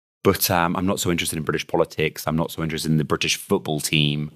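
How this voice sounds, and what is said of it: British accent. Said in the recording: “I can't get away from my accent, which is clearly British”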